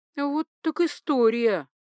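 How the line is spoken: Stunned, forced out. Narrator (Russian): Только и смогла я выдавить из себя

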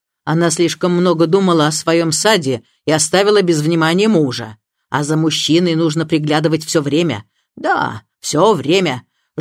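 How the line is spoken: Harsh tone. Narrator (Russian): жестким тоном повторила она

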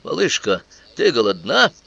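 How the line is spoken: Exclaiming. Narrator (Russian): Я воскликнул

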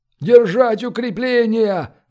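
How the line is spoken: Shouted. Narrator (Russian): закричал барон

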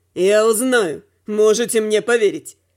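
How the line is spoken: Snorting remark. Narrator (Russian): хмыкнула Рук

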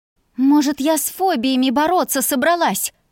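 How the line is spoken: Reply through clenched teeth. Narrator (Russian): Процедила в ответ

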